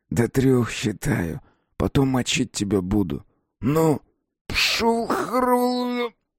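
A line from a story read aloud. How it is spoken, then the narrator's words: Hoarse, strained throat. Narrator (Russian): прохрипел стиснутым горлом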